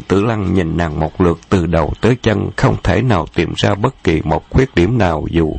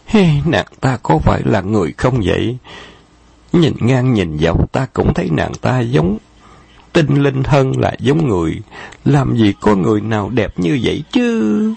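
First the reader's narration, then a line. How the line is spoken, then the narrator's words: Sighing. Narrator (Vietnamese): Khâu Trọng thở dài nói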